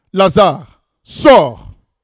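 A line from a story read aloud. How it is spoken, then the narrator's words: Loud shout. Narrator (French): il cria d'une voix forte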